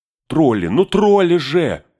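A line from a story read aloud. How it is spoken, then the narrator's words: Wailing shout. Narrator (Russian): вопил Пин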